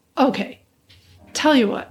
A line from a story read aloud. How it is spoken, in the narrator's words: I said